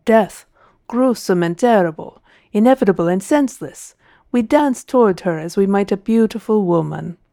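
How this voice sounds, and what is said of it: Thick Italian accent. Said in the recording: “in a thick Italian accent.”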